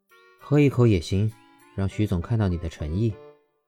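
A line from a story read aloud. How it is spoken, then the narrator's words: Softened, flat tone. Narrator (Chinese): 他的脸色缓和下来，淡淡道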